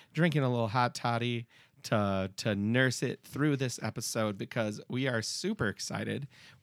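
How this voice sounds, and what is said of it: Hoarse, partly lost voice. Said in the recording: “You can hear it in my voice. I am going through puberty. I lost my voice ... I am slowly getting it back”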